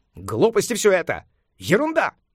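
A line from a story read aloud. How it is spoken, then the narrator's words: Shouting. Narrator (Russian): закричал Сюаньцзан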